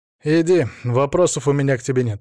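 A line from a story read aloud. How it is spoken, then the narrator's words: Dry. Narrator (Russian): сухо сказал он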